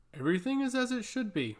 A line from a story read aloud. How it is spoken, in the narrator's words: announced Latros warmly